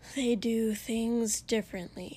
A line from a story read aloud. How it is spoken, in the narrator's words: Shoto said with another sigh